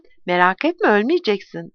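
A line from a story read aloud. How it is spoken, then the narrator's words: Plain. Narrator (Turkish): dedi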